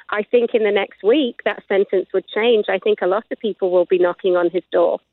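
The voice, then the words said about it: British accent. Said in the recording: “she is a Brit, if you didn't guess by her accent”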